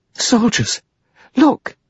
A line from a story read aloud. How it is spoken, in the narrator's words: She cried